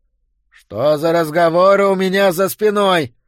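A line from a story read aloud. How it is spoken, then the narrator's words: Shouted. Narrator (Russian): выкрикнул Боудич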